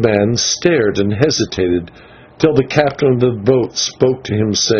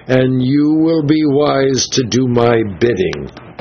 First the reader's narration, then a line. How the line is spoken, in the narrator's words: he cried